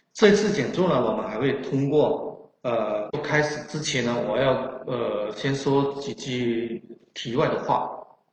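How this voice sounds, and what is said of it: Strong Chaoshan southern accent. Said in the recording (Chinese): “口音呢是有浓烈，呃，非常浓厚的这种南方口音，更准确的说是潮汕口音，...普通话说的太不普通了”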